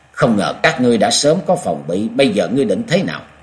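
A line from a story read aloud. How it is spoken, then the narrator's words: Cold voice. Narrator (Vietnamese): Bà bất giọng lạnh lùng rồi nói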